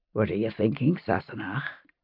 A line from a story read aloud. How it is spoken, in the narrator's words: He said softly